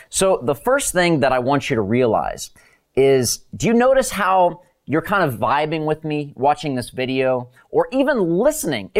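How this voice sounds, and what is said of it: Animated, high-energy delivery. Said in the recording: “you can probably tell that I'm pretty animated. You can hear from my voice ... you always have so much energy”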